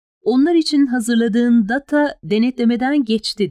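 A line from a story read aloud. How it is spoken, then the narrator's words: Plain. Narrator (Turkish): dedi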